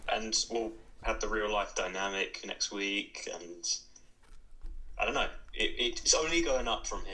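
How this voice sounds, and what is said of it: English accent. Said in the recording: “his English accent”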